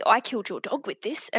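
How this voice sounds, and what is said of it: Put-on Australian accent. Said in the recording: “That's me impersonating an Australian ... No, it was fantastic.”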